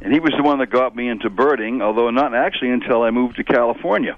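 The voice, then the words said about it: Lingering regional accent. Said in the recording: “You sound a little bit like your brother, Doug. ... you really can't lose the whole accent. It's going to stay with you.”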